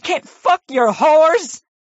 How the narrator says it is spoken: She yelled

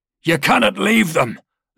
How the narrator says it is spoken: Luca shouted

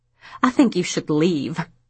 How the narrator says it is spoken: snapped Mrs

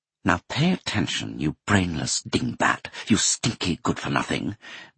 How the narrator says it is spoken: Mimi hissed

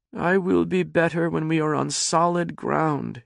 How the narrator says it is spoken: she moaned

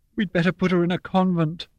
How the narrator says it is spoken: Mama said hysterically, and she began to cry

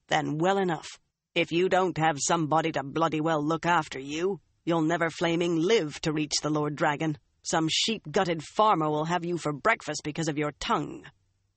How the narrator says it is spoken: Uno growled

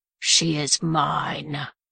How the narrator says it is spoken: Wolf repeated, his voice tinted with a low growl

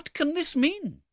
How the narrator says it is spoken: exclaimed the elder lady

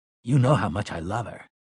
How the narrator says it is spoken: Eddie said in a low, strained voice

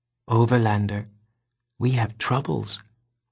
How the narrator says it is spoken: whispered Ares

